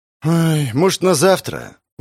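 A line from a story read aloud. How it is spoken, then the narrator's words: Sighing townsman. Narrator (Russian): Вздохнул мещанин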